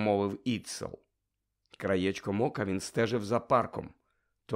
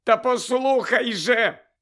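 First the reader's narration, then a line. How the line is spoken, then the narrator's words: Furious shrieking. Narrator (Ukrainian): верещав Фексон, люто витріщившись на Іцела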